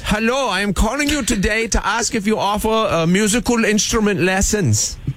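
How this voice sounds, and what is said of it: Put-on Bavarian German accent. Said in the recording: “Yes, a Bavarian friend. ... accent?”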